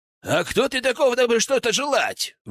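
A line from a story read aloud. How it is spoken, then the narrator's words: Shouting out. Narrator (Russian): выкрикнул князь Долгоруков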